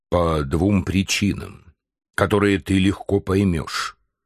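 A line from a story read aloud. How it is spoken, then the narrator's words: Plain. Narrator (Russian): ответил Барбекен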